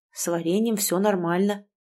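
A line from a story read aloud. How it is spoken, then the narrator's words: Muttered. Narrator (Russian): пробормотал он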